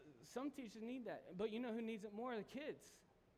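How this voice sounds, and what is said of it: Usual voice. Nothing is said of it.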